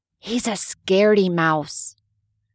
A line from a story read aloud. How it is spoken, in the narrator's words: he whispered